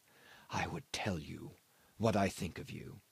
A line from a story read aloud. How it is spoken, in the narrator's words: he said, very softly